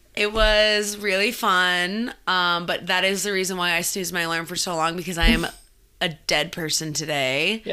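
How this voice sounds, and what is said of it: Slightly raspy, partly lost voice. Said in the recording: “lost my voice this weekend a little bit. It's a little raspy. ... Sounds a little raspy”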